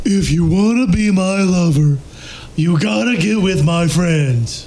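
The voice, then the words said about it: Imitates a pop group's singing. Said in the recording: “from the classic song Wannabe by the Spice Girls ... good impression”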